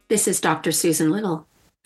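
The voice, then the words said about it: Put-on radio announcer voice. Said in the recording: “That's a radio voice... I've been practicing.”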